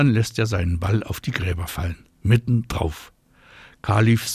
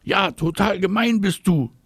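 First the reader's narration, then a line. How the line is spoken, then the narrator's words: Shouting. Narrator (German): schreit Marie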